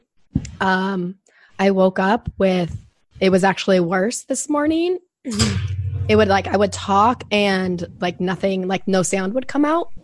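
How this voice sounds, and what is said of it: Raspy, hoarse voice. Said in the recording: “My voice is a little raspy today.”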